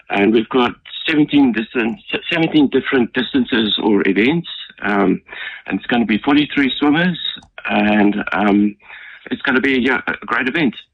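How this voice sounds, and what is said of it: South African accent. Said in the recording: “I can gauge by the accent that you may not have been born in New Zealand ... I'm not French, as you think. ... I'm just a plain South African. I'm from Cape Town.”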